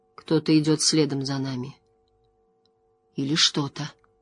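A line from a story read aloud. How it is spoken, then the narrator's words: Quiet. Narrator (Russian): Лан негромко сказал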